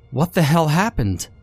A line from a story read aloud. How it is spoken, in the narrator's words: I cried